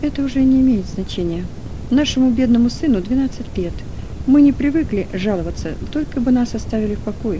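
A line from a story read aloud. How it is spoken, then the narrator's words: Plain. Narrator (Russian): ответил Кран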